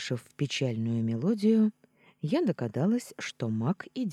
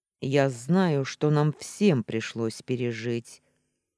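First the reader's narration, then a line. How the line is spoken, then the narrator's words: Cold, cutting interruption. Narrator (Russian): Холодно оборвал ее Устин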